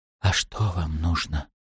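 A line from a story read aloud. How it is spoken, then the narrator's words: Whisper. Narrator (Russian): прошептал Шем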